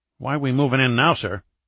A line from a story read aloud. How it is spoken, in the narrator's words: Smith asked sharply